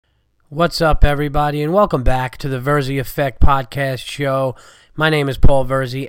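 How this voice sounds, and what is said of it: Sick, under-the-weather voice. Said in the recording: “As you can hear from my voice, I'm still under the weather and sick.”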